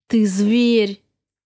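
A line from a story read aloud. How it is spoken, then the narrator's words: Through clenched teeth. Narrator (Russian): процедила сквозь зубы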